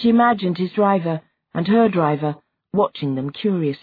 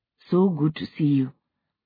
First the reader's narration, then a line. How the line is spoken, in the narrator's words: both murmuring